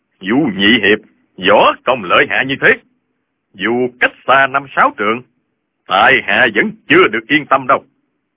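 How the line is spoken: Smiling. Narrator (Vietnamese): Lão Hành Khớp mỉm cười

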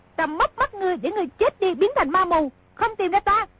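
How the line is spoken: Shout. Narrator (Vietnamese): công chúa quát

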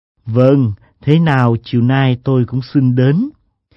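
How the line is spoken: Meaningful smile. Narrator (Vietnamese): Lãng Sinh mỉm cười có ý nhị

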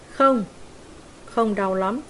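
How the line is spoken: Plain. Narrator (Vietnamese): Ivo trả lời

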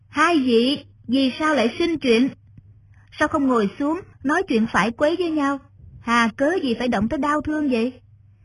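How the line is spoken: Young scholar, loud voice. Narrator (Vietnamese): một thư sinh thiếu niên, y lớn tiếng nói

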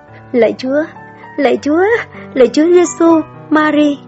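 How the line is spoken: Stammering, trembling, muffled. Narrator (Vietnamese): cô ta úp mặt vào tường nói lắp bắp, giọng run run

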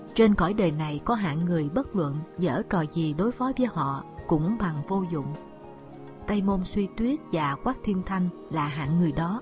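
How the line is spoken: Sighing reply. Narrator (Vietnamese): Lục Tiểu Phụng thở dài đáp

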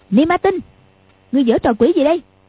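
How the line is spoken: Shouting. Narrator (Vietnamese): quát lên

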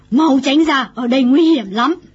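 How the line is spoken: Exasperated, amused yell. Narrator (Vietnamese): bà vừa bực mình vừa buồn cười bèn la lên

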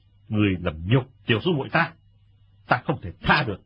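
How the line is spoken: Angry. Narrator (Vietnamese): Lệnh Hồ Xuân tức giận nói

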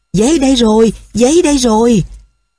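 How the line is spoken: Overjoyed exclamation. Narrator (Vietnamese): vì quá sung sướng, hắn reo lên

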